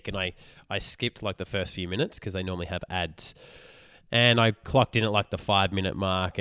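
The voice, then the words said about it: Hoarse, partly lost voice. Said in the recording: “If you can hear that, my voice... I've just I've been sick this week, so I'm recovering. I've lost my voice a little bit.”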